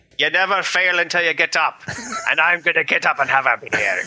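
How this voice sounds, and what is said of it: Put-on Irish accent. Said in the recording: “You need to say it in an Irish accent”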